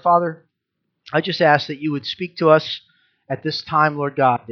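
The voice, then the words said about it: Unwell, strained-sounding voice. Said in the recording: “I've been feeling under the weather all week. You can probably hear it in my voice”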